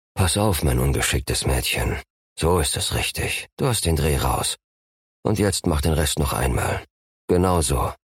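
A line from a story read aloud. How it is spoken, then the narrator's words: Soft resonant male voice. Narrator (German): seine Stimme in der Brust vibrierte, leise in ihr Ohr sagte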